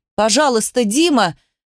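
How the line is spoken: Desperate shout. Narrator (Russian): закричала, понимая, что он собирается уходить

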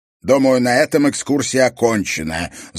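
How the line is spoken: Angry. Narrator (Russian): злобно заявил директор исторического музея

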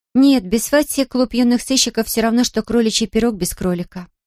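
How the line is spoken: Sighing. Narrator (Russian): вздохнула Дейзи

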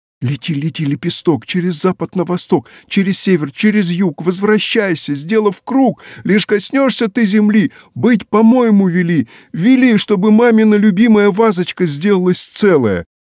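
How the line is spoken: Shouting. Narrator (Russian): закричала Женя

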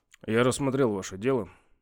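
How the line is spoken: Gloomy. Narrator (Russian): сказал он и мрачно прибавил

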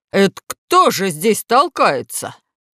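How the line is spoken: Yelling at full strength. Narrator (Russian): Гек завопил, что было мочи

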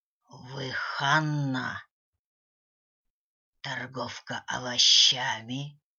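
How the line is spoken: Unpleasant hoarse old voice. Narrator (Russian): спросила старуха неприятным хриплым голосом

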